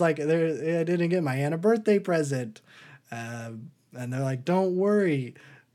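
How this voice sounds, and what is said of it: Usual voice. Nothing is said of it.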